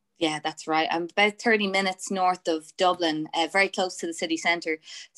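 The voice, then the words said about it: Fast Irish accent, hybrid twang. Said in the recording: “I spoke really fast ... you've got an Australian twang ... I'm coming back to the Irish accent ... it's kind of a hybrid of different accents”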